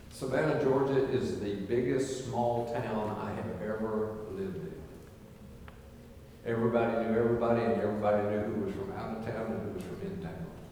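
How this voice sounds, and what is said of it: Southern Carolinian accent. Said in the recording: “I have a southern accent ... I had a Carolinian accent, not a Savannah, Georgia accent”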